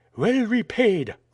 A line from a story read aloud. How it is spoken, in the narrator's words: cried a voice concealed by the tumult